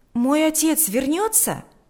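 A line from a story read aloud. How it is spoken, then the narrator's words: Exclaiming. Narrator (Russian): воскликнул Сережа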